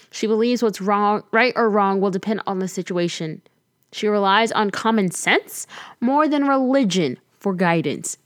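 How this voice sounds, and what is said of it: Reading in a newscaster voice. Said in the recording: “You like how I'm reading this in like a newscaster voice?”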